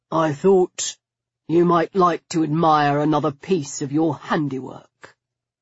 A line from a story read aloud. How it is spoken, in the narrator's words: he said, his voice low and terrible